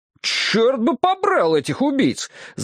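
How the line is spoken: Furious yelling. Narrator (Russian): завопил я вне себя от ярости

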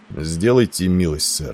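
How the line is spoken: Calm. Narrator (Russian): спокойно произнес он

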